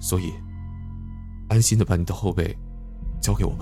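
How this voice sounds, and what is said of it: Firm, forceful voice. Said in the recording (Chinese): “用坚定有力的声音说”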